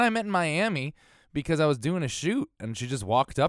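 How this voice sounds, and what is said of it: Usual voice. Nothing is said of it.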